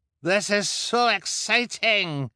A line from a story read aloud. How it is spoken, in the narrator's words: cried the man with dyed hair